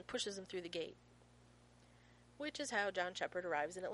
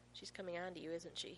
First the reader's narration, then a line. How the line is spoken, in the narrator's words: He murmurs